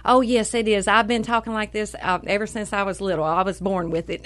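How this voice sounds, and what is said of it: Southern American accent. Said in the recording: “I think that is a genuine Southern accent you got there”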